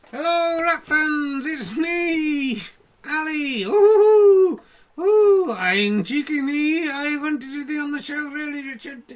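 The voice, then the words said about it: Puppet character voice. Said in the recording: “I can't do the voice properly if you're not actually man”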